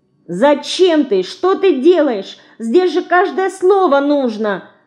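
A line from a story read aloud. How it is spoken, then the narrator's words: Shouting, mouse. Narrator (Russian): кричала мышка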